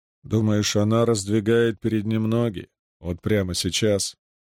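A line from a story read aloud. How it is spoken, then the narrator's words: Calm, slightly mocking. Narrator (Russian): спокойно проговорил Андат своим обычным, слегка насмешливым тоном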